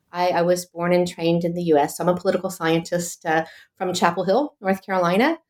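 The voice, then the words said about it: American accent. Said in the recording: “you might have noticed from my accent, I'm actually American”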